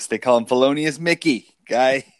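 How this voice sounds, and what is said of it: Put-on Boston accent. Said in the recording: “that's our inner Boston accent coming out.”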